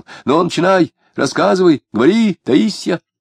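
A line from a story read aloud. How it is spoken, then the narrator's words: Frustrated shout. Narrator (Russian): не найдя определяющего слова, он крикнул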